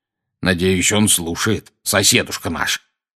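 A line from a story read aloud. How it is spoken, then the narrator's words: Growling. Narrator (Russian): прорычал дядя Вернон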